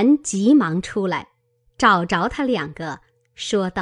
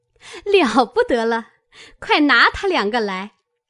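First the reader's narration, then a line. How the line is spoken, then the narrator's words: Crowd laughing. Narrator (Chinese): 众人听了都笑道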